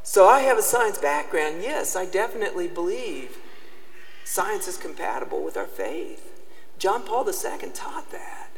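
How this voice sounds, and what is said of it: Southern US accent. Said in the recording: “That's where my southern accent comes from, okay? All right, so when I say y'all, y'all know, y'all understand, okay? So it's terrible to have a southern accent”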